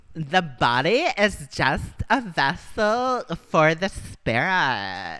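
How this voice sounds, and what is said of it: Put-on Valley Girl accent. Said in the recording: “more in the Valley Girl accent”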